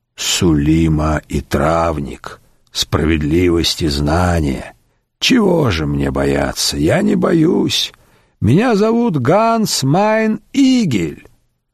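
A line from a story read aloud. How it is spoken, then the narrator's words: Hoarse rasp. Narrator (Russian): существо прохрипело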